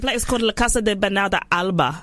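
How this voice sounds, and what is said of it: Put-on accent rolling off tongue. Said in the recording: “put the accent on it and kind of just rolled off your tongue”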